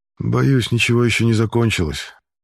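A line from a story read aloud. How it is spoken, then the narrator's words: Gloomy reply. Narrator (Russian): мрачно отвечает Данжур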